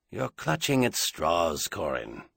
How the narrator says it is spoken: Doyle said very quietly from behind him

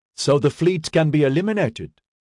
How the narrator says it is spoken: Creewen asked urgently

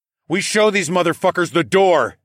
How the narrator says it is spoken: I yelled

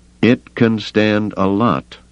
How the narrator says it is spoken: Duncan said slowly

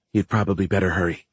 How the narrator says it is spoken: whispered

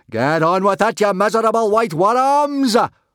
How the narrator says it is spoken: roared Gobber at the saber-toothed dragons

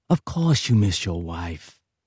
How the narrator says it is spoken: muttered Tartaglione when he'd calmed down slightly

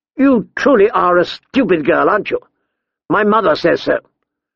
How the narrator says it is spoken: he said sharply

